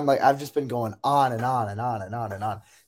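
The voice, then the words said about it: Tired, exhausted voice. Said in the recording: “I am exhausted. I, I've I'm sure you can tell by my voice ... I'm tired”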